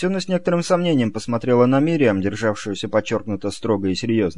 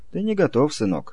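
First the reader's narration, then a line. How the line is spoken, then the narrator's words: Soft, gentle. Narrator (Russian): мягко проговорила Есёна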